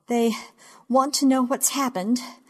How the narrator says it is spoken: I say, breathing too hard, much too fast, gasping

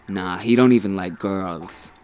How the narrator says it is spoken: one of them sneered

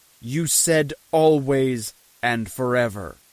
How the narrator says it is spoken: it said

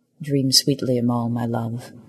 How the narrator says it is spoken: he said quietly into the crescent

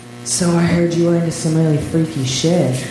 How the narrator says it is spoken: leaned into her ear and breathed

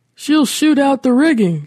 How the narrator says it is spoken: shouted Curtis

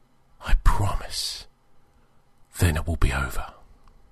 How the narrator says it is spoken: whispered

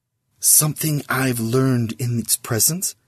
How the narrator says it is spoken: he whispered to Sizz

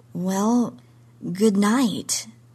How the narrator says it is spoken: said weakly

